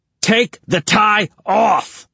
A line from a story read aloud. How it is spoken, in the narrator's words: Tony screamed at him